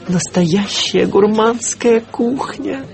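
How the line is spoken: Breathless exhale. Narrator (Russian): выдохнул я

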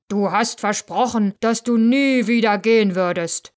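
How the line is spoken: Beast roaring. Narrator (German): brüllte die Bestie

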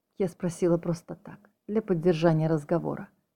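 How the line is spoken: Mother snorting. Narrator (Russian): фыркнула мать

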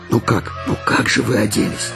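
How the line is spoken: Mother whispering. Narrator (Russian): шептала их мама

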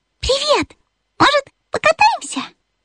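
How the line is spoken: Cheerful. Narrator (Russian): радостно подмигнул Бипу и сказал

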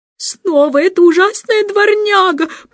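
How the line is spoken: Exasperated moan. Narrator (Russian): простонала мисс Ларк, поняв, наконец, что вторая собака не просто гуляет сама по себе, а сопровождает Эндрю

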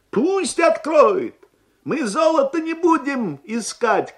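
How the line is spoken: Shouted. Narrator (Russian): крикнул один из них

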